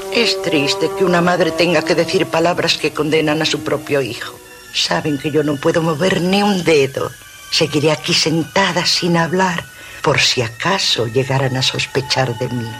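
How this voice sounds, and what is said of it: A woman's voice. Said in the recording (Spanish): “es una voz de mujer”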